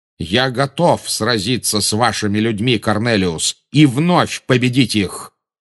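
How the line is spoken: Thundering voice. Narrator (Russian): прогремел Дамблдор

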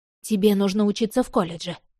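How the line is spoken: Plain. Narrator (Russian): сказала Рози

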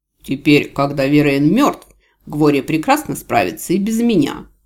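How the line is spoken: Snapping retort. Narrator (Russian): огрызнулся архивариус

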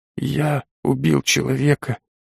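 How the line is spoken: Barely audible whisper. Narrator (Russian): едва слышно прошептал парень

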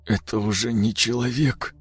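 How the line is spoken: Strained, muffled. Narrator (Russian): выдавил он глухо

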